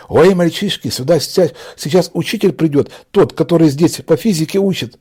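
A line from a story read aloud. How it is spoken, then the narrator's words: Rapid frightened chatter. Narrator (Russian): затараторила испуганно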